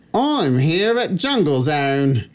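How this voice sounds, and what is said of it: Put-on Australian accent. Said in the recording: “can you refine your Australian accent for it?”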